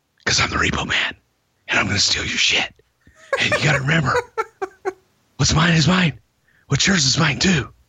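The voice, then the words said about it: Whispering. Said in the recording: “why I'm whispering, but Sid was kind of whispering in the promo before, so I'm going to whisper”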